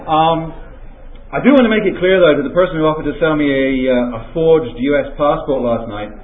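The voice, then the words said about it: English accent. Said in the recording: “an English accent goes over rather well here, so I'll maybe stick with that”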